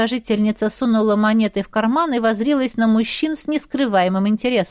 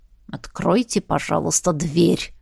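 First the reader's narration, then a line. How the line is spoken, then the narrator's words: Through gritted teeth. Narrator (Russian): процедил Милч сквозь зубы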